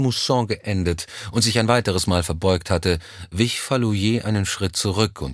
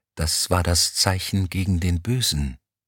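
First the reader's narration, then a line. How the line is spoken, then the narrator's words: Whisper while walking. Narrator (German): flüsterte Kolaou Elm im Gehen zu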